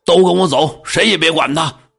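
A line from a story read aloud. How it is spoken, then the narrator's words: Shouting. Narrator (Chinese): 又喊仆人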